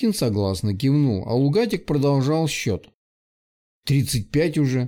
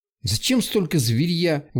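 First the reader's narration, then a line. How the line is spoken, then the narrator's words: Indignant. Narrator (Russian): Возмущенно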